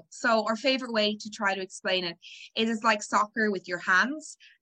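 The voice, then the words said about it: Irish accent. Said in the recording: “you can tell from my accent, I'm Irish. I grew up in Ireland.”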